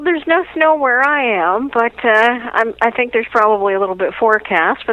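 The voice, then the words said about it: Mild Canadian accent. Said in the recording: “I can hear your accent. ... It always comes through. ... you're Canadian, you say again”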